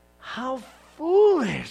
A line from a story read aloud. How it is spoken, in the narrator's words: Samuel exclaimed